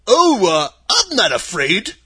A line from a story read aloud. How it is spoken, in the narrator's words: replied the Scarecrow